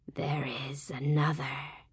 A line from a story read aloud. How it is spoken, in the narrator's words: they whispered